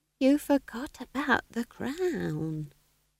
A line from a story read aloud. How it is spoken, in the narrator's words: whispered Nanny Ogg